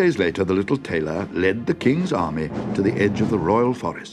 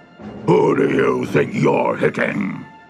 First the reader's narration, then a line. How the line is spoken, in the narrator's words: growled the ogre to his friend